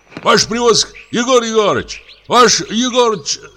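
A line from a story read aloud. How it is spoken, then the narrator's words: Group shouting. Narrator (Russian): закричала вторая группа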